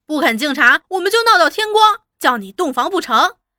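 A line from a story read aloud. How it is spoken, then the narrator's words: Group shouting. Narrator (Chinese): 大家又都叫开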